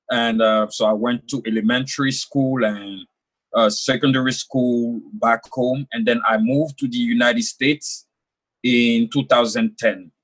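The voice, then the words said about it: French-speaking West African accent. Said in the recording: “I was born and raised in Ivory Coast, West Africa ... as you could hear my accent, French is my first language”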